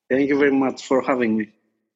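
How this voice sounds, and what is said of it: Greek accent. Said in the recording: “my Greek accent”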